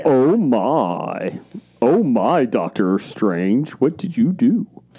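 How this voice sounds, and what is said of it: Imitates another person's voice. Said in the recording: “that was actually a halfway decent ... That was impression. Your best impressionation that we've had in a long, long time.”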